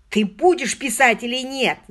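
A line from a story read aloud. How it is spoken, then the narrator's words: Shouting. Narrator (Russian): заорал Мерсер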